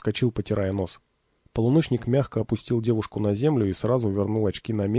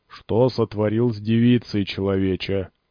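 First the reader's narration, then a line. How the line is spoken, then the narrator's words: Deep, gloomy boom. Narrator (Russian): прогудел Василий Пророк мрачно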